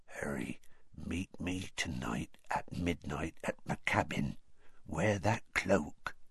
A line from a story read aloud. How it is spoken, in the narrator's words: said in a whisper so low that only Harry could hear it